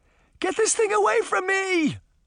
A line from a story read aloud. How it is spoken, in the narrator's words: Sabrina cried